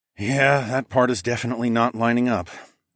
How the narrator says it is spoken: I sighed

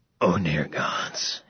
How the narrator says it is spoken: gasped, as everything spun

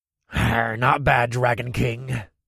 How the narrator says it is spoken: Nakar snarled

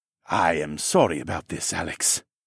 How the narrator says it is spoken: Siskern murmured to me

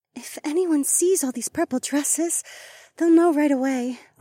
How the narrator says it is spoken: Rachel sighed

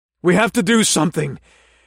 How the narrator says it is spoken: I said through gasping breaths

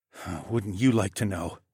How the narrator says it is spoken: I mumbled, and I tucked the goba nut into the pocket of my cheek

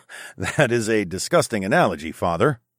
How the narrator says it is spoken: I chuckled

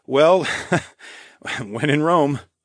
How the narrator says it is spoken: I laughed

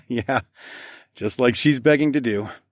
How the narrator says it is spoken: I chuckled

